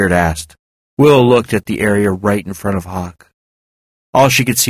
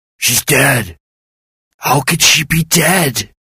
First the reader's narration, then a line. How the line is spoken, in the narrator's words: he moaned